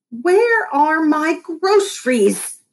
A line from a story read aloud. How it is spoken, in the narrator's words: she screeched